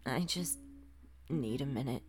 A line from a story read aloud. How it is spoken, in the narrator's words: muttered